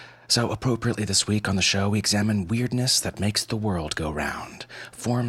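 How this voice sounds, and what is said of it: Usual voice. Nothing is said of it.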